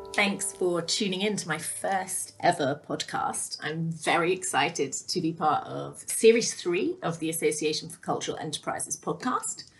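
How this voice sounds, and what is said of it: Rich, polished radio voice. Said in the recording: “owner of a fantastic radio voice”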